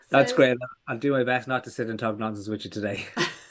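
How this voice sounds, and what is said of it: Irish accent. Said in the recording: “I just love the Irish accent. ... I love the Irish accent,”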